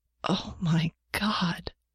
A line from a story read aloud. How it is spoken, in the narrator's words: Janet gasped